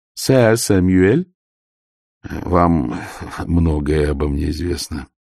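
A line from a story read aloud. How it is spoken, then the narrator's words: Weary. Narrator (Russian): устало заметил Ваймс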